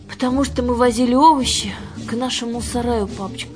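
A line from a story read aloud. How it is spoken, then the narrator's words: Trembling voice. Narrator (Russian): ответила Аннушка дрогнувшим голосом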